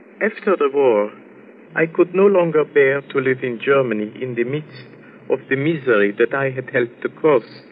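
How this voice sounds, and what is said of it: German accent. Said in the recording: “your accent, you're German”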